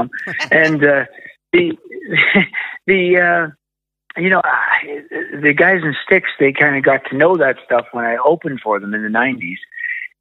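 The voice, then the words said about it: Strong Canadian accent. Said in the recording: “you can hear from my outrageous accent, that's where I'm from”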